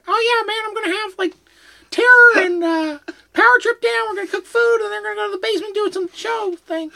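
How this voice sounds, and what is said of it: Imitates another person's voice. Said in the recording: “that's a really good Maddie impression”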